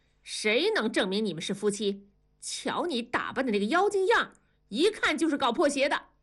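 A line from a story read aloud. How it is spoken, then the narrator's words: Angry shout. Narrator (Chinese): 造反派头头板着脸怒喝道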